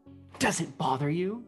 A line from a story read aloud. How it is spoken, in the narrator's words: Gale whispered